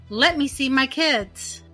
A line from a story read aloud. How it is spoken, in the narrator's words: he starts shouting